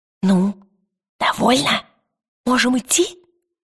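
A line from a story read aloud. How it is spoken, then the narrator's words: Whisper. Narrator (Russian): прошептал он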